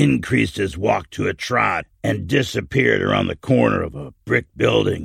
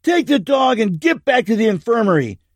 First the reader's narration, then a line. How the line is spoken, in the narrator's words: Paul yelling back over his shoulder